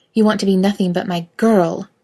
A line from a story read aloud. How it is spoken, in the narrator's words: Kate hisses